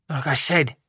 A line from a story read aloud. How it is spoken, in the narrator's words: Bernadette muttered